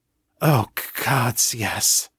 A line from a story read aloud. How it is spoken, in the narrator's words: Kate panted